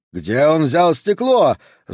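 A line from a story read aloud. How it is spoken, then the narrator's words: Yelling. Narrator (Russian): заорал Купер на генерала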